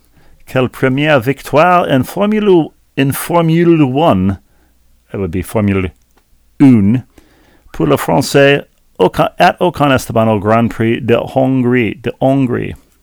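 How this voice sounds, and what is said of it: Exaggerated French accent, Emmanuel Macron impression. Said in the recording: “your ridiculous French accent ... I'm doing my Emmanuel Macron.”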